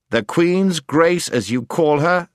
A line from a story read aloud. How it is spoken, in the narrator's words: said the prince sternly